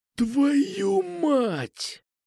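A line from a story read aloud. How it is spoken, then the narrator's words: Rasp. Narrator (Russian): прохрипел Кукуша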